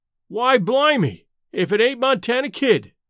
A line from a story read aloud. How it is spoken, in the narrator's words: exclaimed one of the men